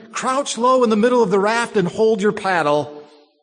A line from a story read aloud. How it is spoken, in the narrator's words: I shouted to Laverne